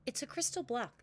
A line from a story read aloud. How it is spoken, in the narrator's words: said Noomzor Noom